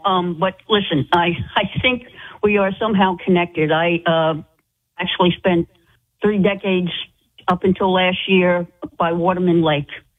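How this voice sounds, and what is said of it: Rhode Island accent. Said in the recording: “I know that accent. I know that accent, darling. I know you're a true Rhode Islander.”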